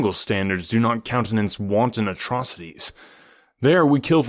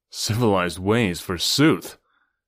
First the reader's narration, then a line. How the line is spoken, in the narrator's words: scoffed Tarzan